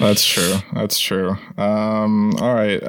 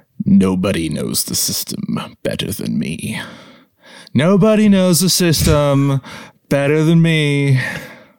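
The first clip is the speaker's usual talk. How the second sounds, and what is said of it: Poor imitation of another person's voice. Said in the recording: “your impression of Trump is horrible”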